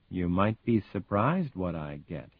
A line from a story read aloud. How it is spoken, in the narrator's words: he says softly